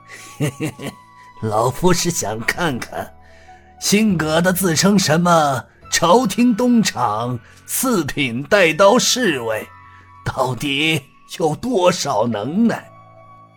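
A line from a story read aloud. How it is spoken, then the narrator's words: Sinister laugh. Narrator (Chinese): 刘明山狞笑道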